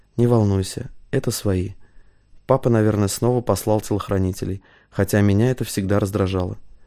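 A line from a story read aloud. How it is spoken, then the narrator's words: Whisper in ear. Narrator (Russian): Мария шепнула ему на ухо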